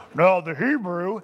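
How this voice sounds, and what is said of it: Mock preacher voice. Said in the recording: “my preacher voice”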